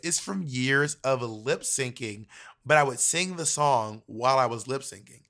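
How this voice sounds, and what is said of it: Wrecked, worn-out voice. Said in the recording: “my voice is wrecked”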